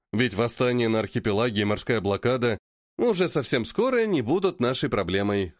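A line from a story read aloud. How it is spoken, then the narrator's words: Snorting. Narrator (Russian): хмыкнул Марко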